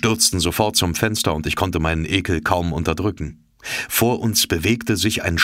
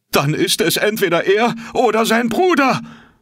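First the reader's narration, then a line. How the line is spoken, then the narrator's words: Bellowed. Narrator (German): brüllte Conseil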